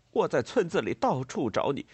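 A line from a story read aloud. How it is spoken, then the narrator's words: Stammering. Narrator (Chinese): 他结结巴巴地说道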